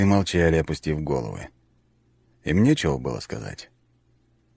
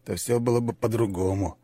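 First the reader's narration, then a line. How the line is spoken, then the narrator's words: Muttering. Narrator (Russian): пробормотал один из бойцов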